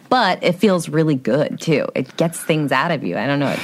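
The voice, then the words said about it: Heavy vocal fry. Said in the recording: “She's a little vocal fry there... Little? It's kind of up there”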